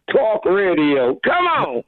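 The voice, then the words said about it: Attempted New York accent. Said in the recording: “he tries to say it in a New York accent”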